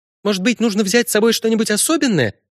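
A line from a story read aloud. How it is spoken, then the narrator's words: Rapid chattering. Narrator (Russian): тараторила Синтия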